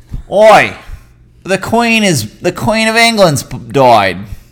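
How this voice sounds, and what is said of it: Poor put-on Australian accent. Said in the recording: “I'm just really good at Australian ... rate ... horrible accent”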